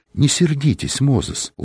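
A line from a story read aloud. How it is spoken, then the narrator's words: Gentle, affectionate. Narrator (Russian): ласково произнесла госпожа Мозес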